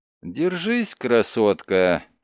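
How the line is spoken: Sad. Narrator (Russian): печально сказал Дрейк

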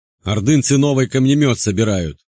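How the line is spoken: Archer shouting. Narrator (Russian): прокричал один из оставшихся лучников ближнего десятка Андрея

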